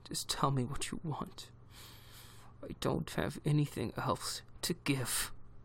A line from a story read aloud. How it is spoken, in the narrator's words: he said through gritted teeth